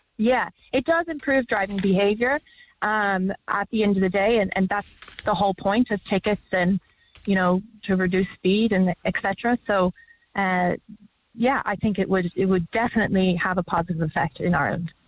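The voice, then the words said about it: American accent. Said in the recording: “Love the accent. What part of the States were you in? ... Dallas.”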